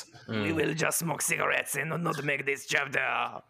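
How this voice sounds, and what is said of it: Exaggerated stereotypical French accent. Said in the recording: “Sounds like some of a stereotype... My French accent is fucking on point... Stereotypically on point, but on point”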